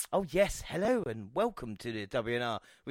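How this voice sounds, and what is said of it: Put-on posh English accent. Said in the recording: “I had my posh accent for a few episodes”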